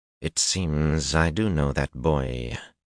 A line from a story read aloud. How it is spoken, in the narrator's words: she drawled softly